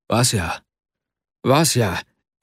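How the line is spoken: Startled cry. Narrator (German): rief Arkadi erschrocken aus

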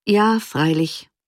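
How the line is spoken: Sighing answer. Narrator (German): antwortete Havel seufzend

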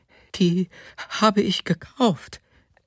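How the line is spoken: Fearful woman, repeating. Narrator (German): sagte die Frau noch einmal ängstlich

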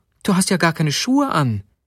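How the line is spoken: Exclaiming. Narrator (German): rief sie aus

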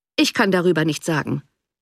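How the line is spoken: Cold reply. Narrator (German): erwiderte der Baronet kalt

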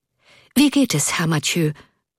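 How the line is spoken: Breathless hurried question. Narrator (German): fragte er Erik hastig atmend

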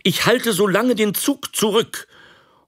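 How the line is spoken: Called out. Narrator (German): rief er

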